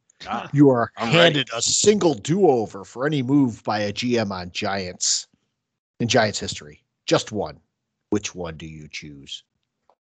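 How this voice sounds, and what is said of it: Deep dramatic Mission Impossible-style voice. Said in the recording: “I'm going to read this like a Mission Impossible ... That was a pretty good accent ... Talking with a deep voice”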